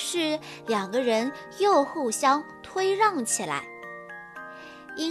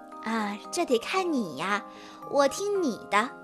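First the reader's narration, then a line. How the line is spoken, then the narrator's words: Gentle. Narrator (Chinese): 苹果嘉儿一脸温柔地说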